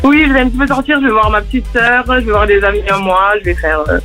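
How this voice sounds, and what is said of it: Toulouse-area French accent. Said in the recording (French): “T'habites à Muret, c'est où Muret? ... C'est à côté de Toulouse. ... Ah, c'est pour ça que t'as l'accent?”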